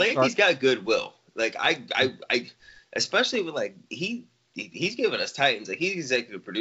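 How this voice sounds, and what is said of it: Usual voice. Nothing is said of it.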